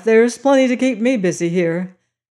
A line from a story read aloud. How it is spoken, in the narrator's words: he said with his nervous laugh